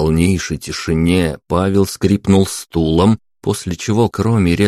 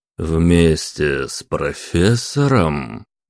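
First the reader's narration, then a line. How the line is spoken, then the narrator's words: Thoughtful question. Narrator (Russian): уточнил задумчиво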